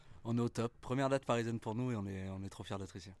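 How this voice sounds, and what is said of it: Sing-song regional French accent. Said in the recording (French): “Il y a un bel accent chantant”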